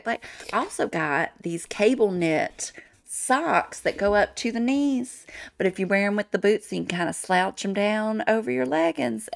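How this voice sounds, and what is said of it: Country accent. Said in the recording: “Your little country accent”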